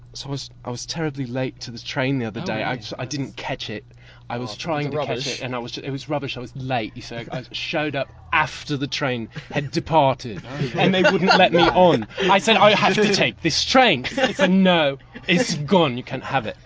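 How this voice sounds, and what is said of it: Fairly good, camp put-on English accent. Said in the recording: “do an English accent, they're doing pretty well, but hella camp”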